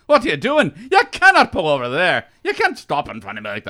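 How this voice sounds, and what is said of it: Angry put-on Scottish accent. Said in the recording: “I just go into an angry Scottish rant”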